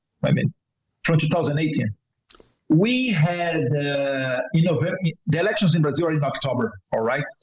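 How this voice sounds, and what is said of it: Brazilian-accented English. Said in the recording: “Brazilian accent.”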